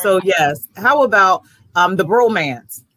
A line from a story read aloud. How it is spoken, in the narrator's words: I chuckled